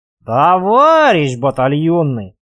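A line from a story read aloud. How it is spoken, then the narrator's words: Drawn-out call. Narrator (Russian): опять протянул танкист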